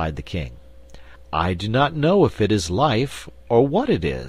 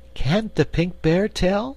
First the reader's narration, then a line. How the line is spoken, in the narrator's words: asked Cake anxiously